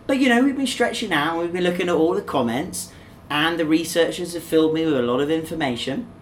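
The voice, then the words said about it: English accent. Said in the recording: “two English people talking to each other ... my accent's a bit different to yours, but some would say we have the Queen's English”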